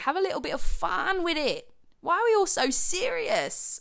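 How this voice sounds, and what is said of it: Speaks in a put-on accent. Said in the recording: “I don't know why I'm doing this accent so much.”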